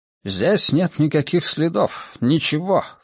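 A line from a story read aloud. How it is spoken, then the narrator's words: Worried mutter. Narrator (Russian): встревоженно пробормотал Леблан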